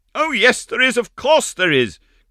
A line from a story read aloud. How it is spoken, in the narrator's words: cried that little dried plum of a Meg Giry